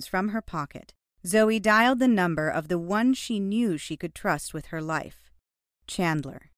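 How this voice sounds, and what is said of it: Usual voice. Nothing is said of it.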